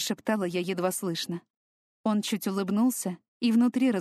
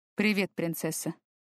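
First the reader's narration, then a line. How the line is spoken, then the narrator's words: Quiet. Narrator (Russian): тихо произнес он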